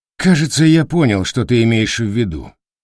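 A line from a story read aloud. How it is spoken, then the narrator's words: Sighing. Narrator (Russian): вздохнул Капурчик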